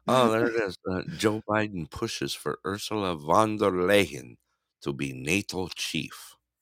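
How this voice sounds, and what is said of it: Put-on weird accent. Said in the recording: “you have to say it in some weird accent”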